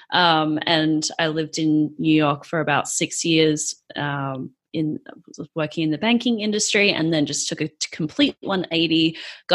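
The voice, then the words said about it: Australian accent. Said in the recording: “the accent is from Australia”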